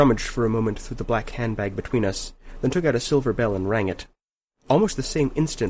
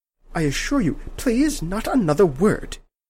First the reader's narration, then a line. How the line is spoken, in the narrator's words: she said sharply, interrupting me